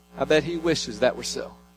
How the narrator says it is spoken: Lewis quietly responded

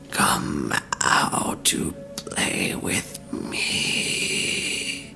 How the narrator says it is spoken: Puffs of breath say in a crackling, inhuman voice

